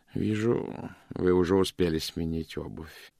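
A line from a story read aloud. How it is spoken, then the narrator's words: Quiet. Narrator (Russian): тихонько проговорил он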